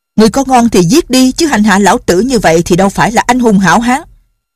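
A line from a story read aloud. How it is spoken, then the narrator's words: Defiant shout. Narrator (Vietnamese): Dương Liên Đình, gã lại là người rất cương cường, gã quát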